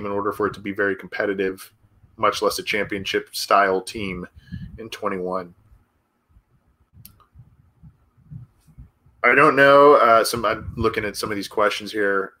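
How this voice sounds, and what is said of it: Stuffy, congested voice. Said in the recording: “I've got a little bit of a cold, so I'm getting over one. My nose is stuffy.”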